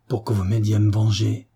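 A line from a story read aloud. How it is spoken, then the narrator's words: Low muffled growl. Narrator (French): gronda Timothée d'une voix sourde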